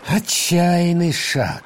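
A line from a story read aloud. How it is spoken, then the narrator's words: Thoughtful, pensive. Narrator (Russian): задумчиво произнес папа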